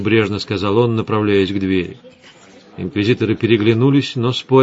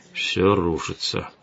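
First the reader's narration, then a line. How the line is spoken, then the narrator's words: Muttering. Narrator (Russian): пробормотал Гессер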